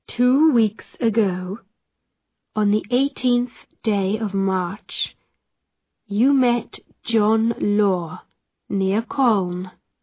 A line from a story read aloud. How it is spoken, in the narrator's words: Roger Noel said